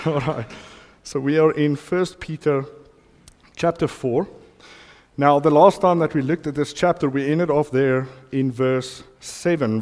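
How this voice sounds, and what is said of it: Voice strained from a cough. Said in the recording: “I've caught a bit of a cough this week ... you can hear my voice has took a little bit of a hit this morning”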